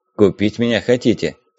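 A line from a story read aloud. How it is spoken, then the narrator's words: Plain. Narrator (Russian): сказал Зих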